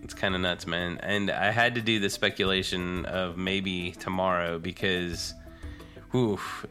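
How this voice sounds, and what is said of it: Lower, husky under-the-weather voice. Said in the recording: “my sexy voice ... I got like the little lower baritone voice for this episode. I'm a little under the weather”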